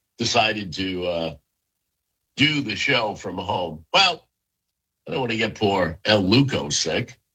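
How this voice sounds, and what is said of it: Sick, rough-sounding voice. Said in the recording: “you can hear it in my voice. Well, you can hear the quality of my voice ... deal with being sick”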